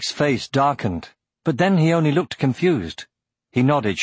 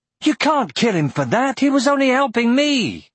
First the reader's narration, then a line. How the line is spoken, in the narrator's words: cried Aragorn